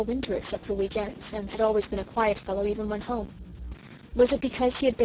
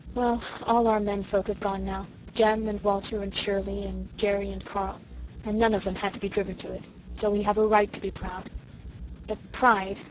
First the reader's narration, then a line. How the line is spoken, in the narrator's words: Susan sighed bitterly